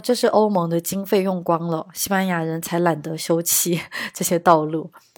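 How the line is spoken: Joking. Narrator (Chinese): 他开玩笑说

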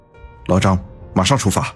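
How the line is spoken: Low grave voice. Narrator (Chinese): 姚远沉声说道

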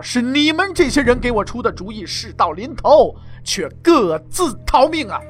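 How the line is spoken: Angry roar, echoing. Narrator (Chinese): 他的怒喝 回应他的只有深邃大殿的回声

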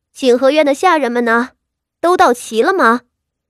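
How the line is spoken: Loud question. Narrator (Chinese): 一碧高声问道

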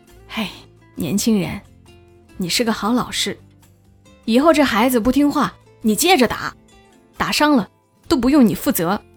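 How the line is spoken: Sighing, reasonable father. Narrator (Chinese): 男生的父亲是一个明事理的人，叹了口气对大伟说

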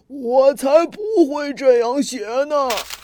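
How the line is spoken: Mournful lament. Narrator (Chinese): 狮子哀叹地说

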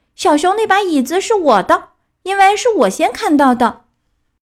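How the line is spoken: Loud shouting. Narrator (Chinese): 他大声嚷道

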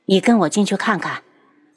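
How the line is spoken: Dejected sigh. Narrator (Chinese): 追烟气馁的叹息

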